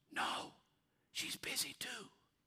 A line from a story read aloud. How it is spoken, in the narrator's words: He whispered